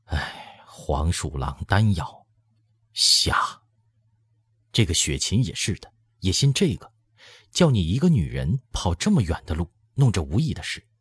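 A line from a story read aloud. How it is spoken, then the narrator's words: Exasperated sigh. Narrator (Chinese): 只跺脚叹道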